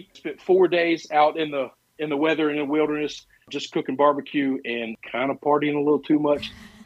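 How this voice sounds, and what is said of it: Slightly cracky voice. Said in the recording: “My voice is a little cracky.”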